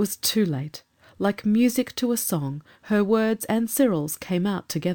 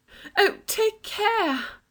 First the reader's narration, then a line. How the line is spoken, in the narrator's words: cried Anthea in an agony of apprehension